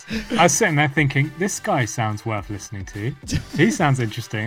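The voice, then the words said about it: London English accent. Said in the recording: “has a really cool accent here ... he's from London”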